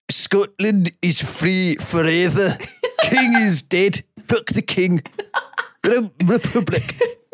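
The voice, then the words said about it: Put-on Scottish accent. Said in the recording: “Can you do the accent? ... I need to hear a Scottish person ... Scottish accent”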